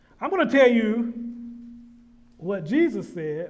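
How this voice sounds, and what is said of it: Loud shouting preacher delivery. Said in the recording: “I'm shouting too hard here.”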